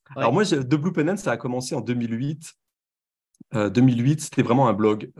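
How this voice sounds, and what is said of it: French accent from France. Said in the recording (French): “à mon accent, vous reconnaissez que je viens de France ... Je n'ai pas perdu mon accent”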